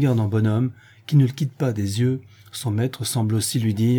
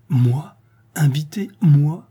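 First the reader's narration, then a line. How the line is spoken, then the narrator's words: Bewildered voice. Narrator (French): il articule enfin d'une voix effarée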